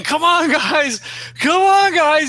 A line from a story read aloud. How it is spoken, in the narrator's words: he just starts screaming